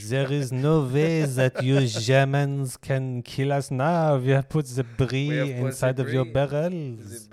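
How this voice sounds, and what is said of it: Put-on French accent. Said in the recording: “the French accent”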